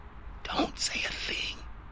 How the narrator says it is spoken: hissed

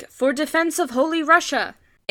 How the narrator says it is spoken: They shouted

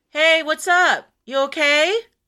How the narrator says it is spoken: I didn't know what to do, so I called out

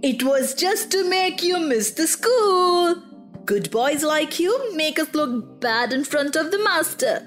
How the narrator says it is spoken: they all said in chorus

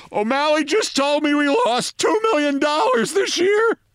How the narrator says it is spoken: Fresco Thompson laughed

